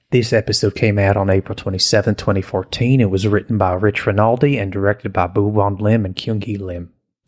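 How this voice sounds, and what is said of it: Poor put-on Texas accent. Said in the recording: “I think it's horrible. ... Texas accents”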